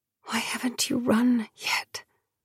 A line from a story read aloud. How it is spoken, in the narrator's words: Dior whispered